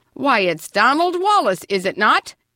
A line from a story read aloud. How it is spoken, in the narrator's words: exclaimed Grandpa